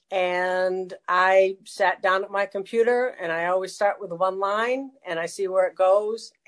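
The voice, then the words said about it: New England accent. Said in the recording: “I was born and raised in New England. You can probably tell by the funny accent.”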